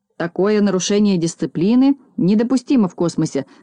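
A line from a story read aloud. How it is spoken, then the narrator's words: Irritated grumble. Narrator (Russian): с раздражением проворчал Знайка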